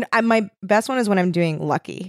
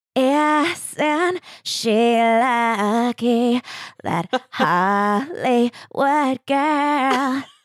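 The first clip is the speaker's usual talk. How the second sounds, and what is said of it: Sings imitating a pop singer's voice. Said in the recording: “amazing singing impression of Britney ... A Britney impersonator? ... Vocal impressionist”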